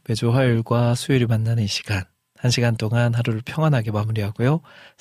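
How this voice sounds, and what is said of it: Voice different from usual, cold-affected. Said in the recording (Korean): “저도 감기가 왔습니다. 방송을 들으시면서 어, 평소와는 좀 목소리가”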